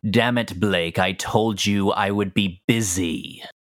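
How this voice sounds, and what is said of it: Villainous character voice. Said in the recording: “Don't like that voice. That's a villain voice if I ever heard one.”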